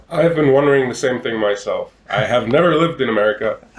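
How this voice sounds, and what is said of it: Slight American accent. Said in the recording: “you speak with a bit of an American accent”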